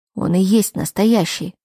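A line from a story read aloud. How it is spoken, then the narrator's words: Snorted. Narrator (Russian): хмыкнул Лерой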